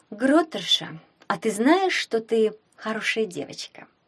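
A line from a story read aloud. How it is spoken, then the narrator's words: Purring. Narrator (Russian): промурлыкала она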